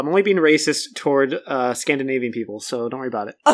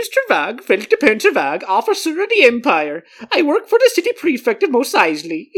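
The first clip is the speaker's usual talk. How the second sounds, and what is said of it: Exaggerated put-on Swedish-sounding accent. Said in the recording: “that was supposed to be, like, Swedish, but I feel like you were very into, like, a poo from The Simpsons a couple times ... Regardless of what that accent may have sounded like”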